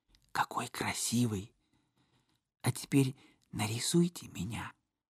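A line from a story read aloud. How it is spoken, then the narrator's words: Pleased whisper. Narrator (Russian): очень довольна прошептала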